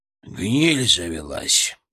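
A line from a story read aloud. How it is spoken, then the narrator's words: Grumbled. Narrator (Russian): проворчал он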